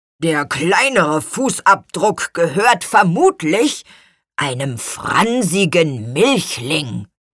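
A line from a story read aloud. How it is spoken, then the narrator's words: Grumbling. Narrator (German): brummte Gurkenhut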